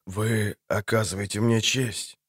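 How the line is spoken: Muttered. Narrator (Russian): пробормотал ведьмак

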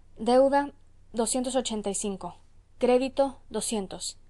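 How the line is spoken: Exclaimed after dreadful silence. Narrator (Spanish): Al cabo de un rato de horrible silencio, exclamó, dirigiéndose a su amo

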